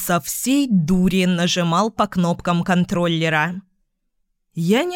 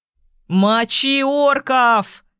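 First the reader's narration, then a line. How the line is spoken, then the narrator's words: Yell. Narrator (Russian): заорал Йохан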